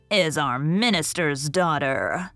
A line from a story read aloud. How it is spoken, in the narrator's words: groaned one ancient maiden